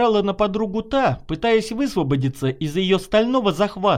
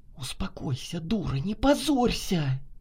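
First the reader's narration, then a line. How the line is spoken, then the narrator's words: Heated whisper in ear. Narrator (Russian): Жарко зашептала Наташа на ухо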